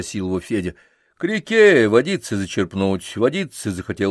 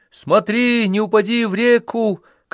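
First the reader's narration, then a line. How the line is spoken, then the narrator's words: Shout after someone. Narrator (Russian): крикнул ему вслед Ильюша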